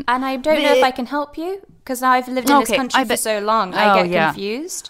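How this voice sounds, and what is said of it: Posh British accent. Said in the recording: “accent that someone would say would be more posh ... I have a quite posh voice ... public school accent”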